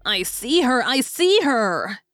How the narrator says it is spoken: he cried

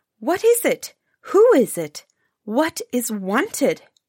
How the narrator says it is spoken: asked the princess, this time somewhat more sternly than before

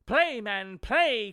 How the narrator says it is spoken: cried the widow

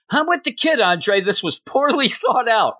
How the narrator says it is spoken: Joker yells out

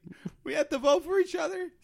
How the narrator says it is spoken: Spencer cries

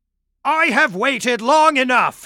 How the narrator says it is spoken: he spat

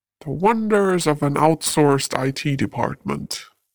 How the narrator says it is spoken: the doctor grumbled

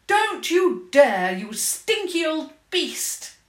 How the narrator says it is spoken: She shouted

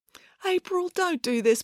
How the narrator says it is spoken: pleaded Joe

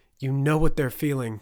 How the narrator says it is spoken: Turner shouted

